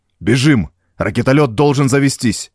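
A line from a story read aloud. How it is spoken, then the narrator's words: Shouting. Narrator (Russian): крикнул Морис товарищу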